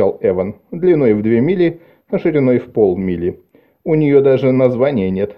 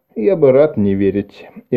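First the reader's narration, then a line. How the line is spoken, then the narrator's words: Sighing. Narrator (Russian): Эван вздохнул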